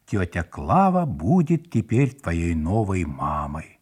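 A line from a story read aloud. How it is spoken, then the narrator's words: Solemn announcement. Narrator (Russian): торжественно заявил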